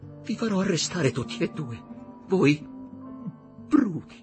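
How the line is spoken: Sobbing. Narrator (Italian): singhiozzò quell'anima perduta

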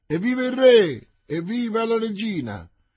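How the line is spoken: Mingled crowd cries. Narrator (Italian): Vi si mischiarono alcune grida di

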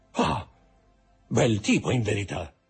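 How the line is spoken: Murmured. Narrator (Italian): mormorò

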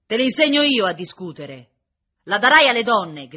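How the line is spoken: Officer shouting. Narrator (Italian): gridava l'ufficiale

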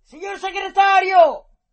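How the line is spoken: Shouted. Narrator (Italian): urlò stavolta Weiss

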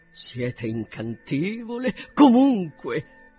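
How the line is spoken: Awkwardly gallant. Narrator (Italian): esclamò egli con goffa galanteria

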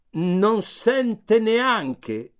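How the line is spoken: Shouting. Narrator (Italian): gridava

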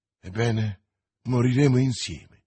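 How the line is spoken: Exclaimed, young man. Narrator (Italian): esclamò il giovane

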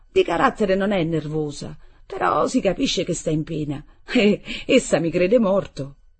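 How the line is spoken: Said laughing. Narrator (Italian): io dissi allora ridendo

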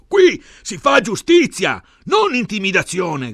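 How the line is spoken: Shouted. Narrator (Italian): gridava Bene

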